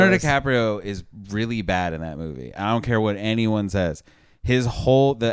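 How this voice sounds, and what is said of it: Usual voice. Nothing is said of it.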